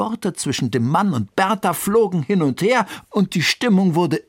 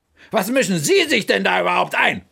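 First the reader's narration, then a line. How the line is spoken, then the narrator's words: Angry retort. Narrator (German): gab zurück wütend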